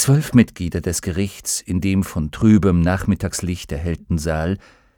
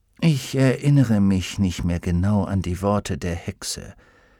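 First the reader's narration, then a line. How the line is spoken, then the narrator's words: Quiet. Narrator (German): sagte Fra Pavel leise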